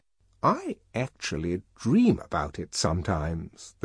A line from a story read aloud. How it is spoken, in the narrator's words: went on in a low voice